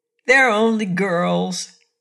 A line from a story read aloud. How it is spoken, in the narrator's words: laughed Scraps